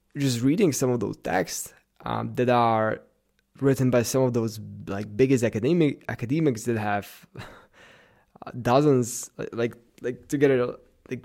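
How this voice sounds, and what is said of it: Slight Russian or Slavic accent. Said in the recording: “I have a slightly Russian or Slavic accent, since I come from a Slavic country”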